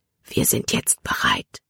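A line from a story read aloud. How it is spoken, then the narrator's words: Whispered. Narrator (German): flüsterte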